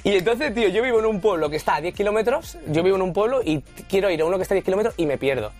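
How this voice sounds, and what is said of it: Andalusian Spanish accent. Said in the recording (Spanish): “yo vivo en un pueblo de Sevilla, se llama Morón de la Frontera ... Se me nota por el acento”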